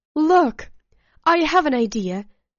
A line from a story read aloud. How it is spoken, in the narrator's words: Alyssa exclaimed suddenly